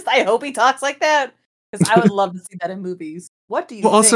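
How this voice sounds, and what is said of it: Usual voice. Nothing is said of it.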